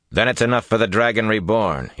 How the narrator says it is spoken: he replied sharply

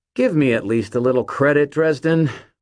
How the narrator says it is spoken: Mort said, his tone sour

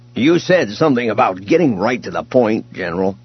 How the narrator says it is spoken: Booster said irritably

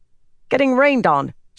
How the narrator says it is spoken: she snapped

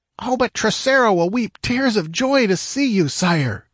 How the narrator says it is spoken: cried one

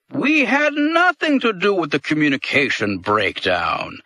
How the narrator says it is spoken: Dol Heep said in the same hearty tone

